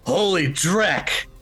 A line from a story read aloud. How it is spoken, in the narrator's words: the guy behind him, you hear him yell